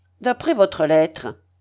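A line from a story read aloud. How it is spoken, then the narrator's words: Harsh declaration. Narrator (French): déclara d'un ton âpre Raskolnikov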